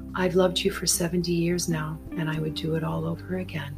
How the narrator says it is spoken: she said softly

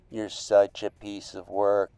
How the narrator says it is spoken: sighed

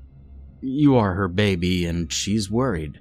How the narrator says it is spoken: said with a chuckle

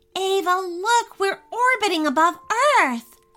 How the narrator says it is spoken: Sally exclaimed with so much excitement

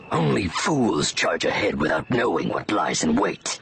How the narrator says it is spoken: Scourge answered through gritted teeth

